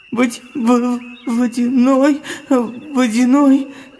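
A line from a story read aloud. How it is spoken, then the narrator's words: Stammering. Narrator (Russian): заикаясь, начал Вадим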